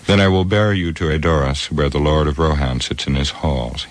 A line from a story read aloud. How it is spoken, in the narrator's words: he said